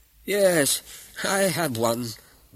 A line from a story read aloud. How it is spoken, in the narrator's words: grumbled an old man